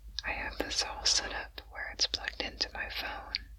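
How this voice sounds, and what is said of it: Whispering quietly. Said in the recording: “I just wanted to record something where I'm whispering ... the sound of my whispers can be heard audibly”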